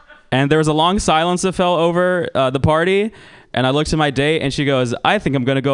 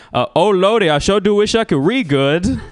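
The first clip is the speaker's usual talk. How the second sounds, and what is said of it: Put-on stereotyped Black American accent. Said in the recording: “do the black accent”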